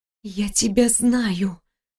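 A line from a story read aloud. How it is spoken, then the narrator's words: Horrified whisper. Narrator (Russian): прошептала, испытывая тихий ужас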